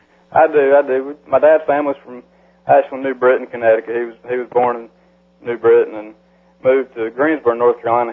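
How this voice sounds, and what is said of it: South Carolina accent. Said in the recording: “you can tell by your accent you're from South Carolina”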